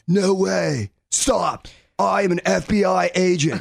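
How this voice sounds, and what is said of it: Imitates another person's voice. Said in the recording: “I think he sounds like Bill from Bill and Ted in every movie... my speed impression”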